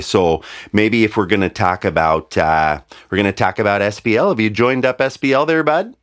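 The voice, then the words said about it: Nasal rural Midwestern accent. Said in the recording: “The typical rural accent here ... Midwest ... it kind of leans into the nose a little bit there, bud. ... almost kind of Canadian, but we don't do the boat.”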